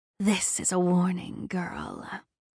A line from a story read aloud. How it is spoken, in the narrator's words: hissed, her voice reverberating through the chaos